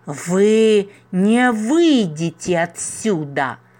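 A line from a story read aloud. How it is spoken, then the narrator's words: Vicious hiss. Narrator (Russian): злобно прошипел рогопед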